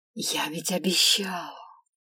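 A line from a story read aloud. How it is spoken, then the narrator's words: Velvety, soft tone. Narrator (Russian): Бархатным тоном произнес эльф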